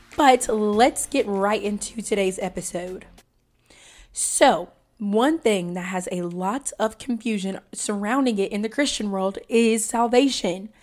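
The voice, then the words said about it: Slightly hoarse voice. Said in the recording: “I have a little cold, so my voice is just a little bit hoarse,”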